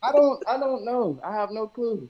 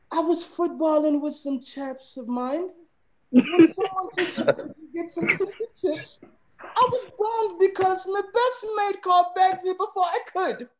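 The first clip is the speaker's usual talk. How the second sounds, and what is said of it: Put-on British accent, somewhat feminine. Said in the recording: “your British accent almost more female too”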